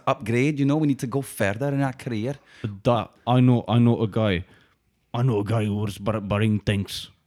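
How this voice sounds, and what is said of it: Thick put-on Irish accent. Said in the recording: “your accent's very thick there ... we brought an Irish guy along”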